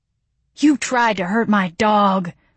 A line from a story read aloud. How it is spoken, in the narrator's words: I wheezed